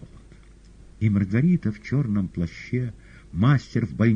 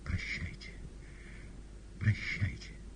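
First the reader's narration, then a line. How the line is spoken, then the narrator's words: Quiet exclamation. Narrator (Russian): Маргарита тихо воскликнула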